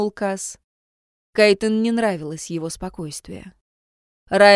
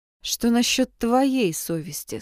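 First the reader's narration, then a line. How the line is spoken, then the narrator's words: Plain. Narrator (Russian): спросила Кайтен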